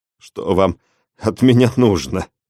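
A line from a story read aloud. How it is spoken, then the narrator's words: Strained, suppressing pain. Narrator (Russian): Отчаянным усилием воли, подавив боль, выдавил из себя я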